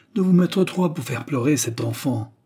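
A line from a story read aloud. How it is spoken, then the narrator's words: Biting, indignant exclamation. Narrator (French): s'écria-t-elle d'une voix mordante et indignée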